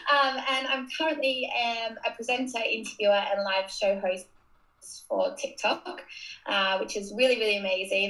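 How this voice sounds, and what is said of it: Australian accent. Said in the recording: “I'm originally from Australia. You can probably already tell by my accent”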